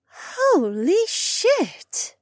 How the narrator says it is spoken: Becca gasped

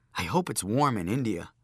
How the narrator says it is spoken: Joshua said

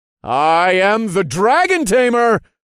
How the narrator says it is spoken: said in a loud, clear voice

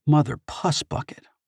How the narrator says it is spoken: Artemis muttered

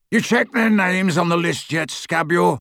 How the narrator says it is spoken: He roared

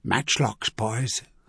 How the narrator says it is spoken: he told them in a low voice

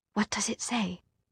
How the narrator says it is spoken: she whispered

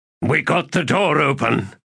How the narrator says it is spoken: said Sheb, his voice overloud

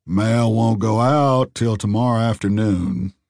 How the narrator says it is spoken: the postmaster drawled

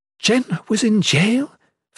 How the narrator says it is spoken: Fenner gasped, feigning shock

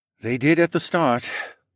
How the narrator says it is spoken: Amir sighed

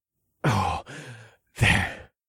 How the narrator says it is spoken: I panted, and there was a sharp pain stabbing me in the chest

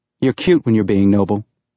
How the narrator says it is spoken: she said

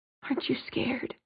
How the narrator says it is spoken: he whispered

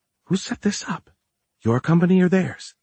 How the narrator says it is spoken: whispered

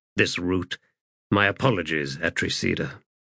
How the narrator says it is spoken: muttered Bryce

